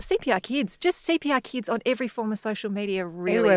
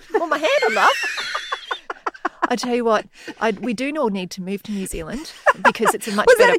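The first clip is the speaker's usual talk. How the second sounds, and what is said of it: Put-on New Zealand accent. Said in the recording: “Kiwi accident? ... That was a Kiwi accident. ... It was a Kiwi accent accident.”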